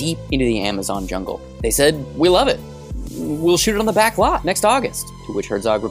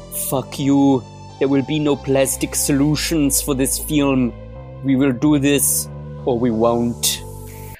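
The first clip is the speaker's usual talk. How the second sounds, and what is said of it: Werner Herzog impression. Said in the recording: “to do a Werner Herzog impression.”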